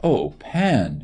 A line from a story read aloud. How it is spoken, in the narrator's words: she cried in mischief